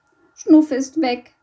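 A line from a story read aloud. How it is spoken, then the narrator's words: Sobbed. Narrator (German): schluchzte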